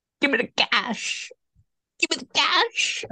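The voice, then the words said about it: High-pitched imitation of another person's voice. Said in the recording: “I'm going to try and do my best impression. ... It's kind of high.”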